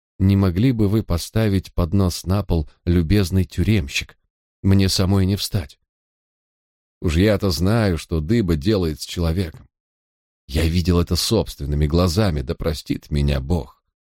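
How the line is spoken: Pleasant, polite request. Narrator (Russian): она заговорила со мной приятным, вежливым тоном и попросила

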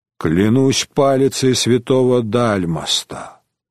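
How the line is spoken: Sighing. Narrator (Russian): вздохнул Куно Витром

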